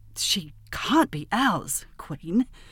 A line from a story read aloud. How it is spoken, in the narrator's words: he said, gasping, stammering